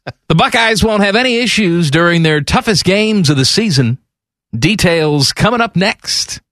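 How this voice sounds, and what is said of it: Radio announcer voice. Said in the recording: “I'm going to do it in my announcer voice. ... this is also the Mike DeWine voice”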